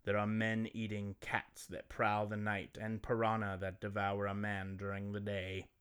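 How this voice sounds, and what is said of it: Narrating in a put-on accent. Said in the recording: “What's that uh, accent you're giving him there?”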